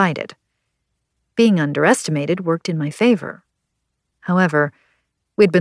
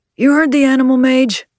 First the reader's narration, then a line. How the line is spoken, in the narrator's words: Leon called out